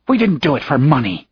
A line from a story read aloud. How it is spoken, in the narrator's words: she snarled